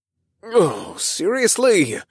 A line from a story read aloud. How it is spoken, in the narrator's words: I groaned